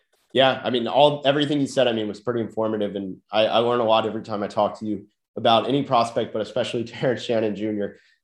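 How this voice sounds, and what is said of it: Nasal, congested voice. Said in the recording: “my nasally voice coming over a sickness, in case you couldn't tell by my voice.”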